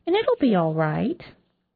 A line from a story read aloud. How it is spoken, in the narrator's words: the nurse said in her fakely sweet voice